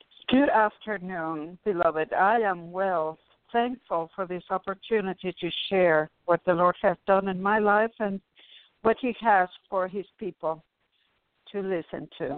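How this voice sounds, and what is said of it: Cuban Spanish accent in English. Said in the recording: “I'm sure our listeners can tell by your accent that you're not Native American ... I was actually born in Cuba”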